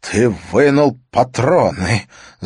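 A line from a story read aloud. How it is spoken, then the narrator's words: Stammering. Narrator (Russian): заикаясь, выговорил Матиас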